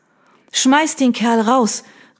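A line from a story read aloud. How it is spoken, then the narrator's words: Sudden innkeeper-style shout. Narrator (German): rief sie plötzlich ganz in ihrer Vergangenheit als Gastwirtin aufgehend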